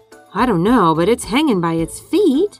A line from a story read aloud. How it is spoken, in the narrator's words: chirped Flitter